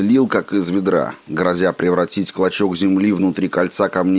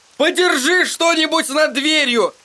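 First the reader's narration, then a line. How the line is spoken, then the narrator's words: Shouting. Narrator (Russian): крикнул Эдди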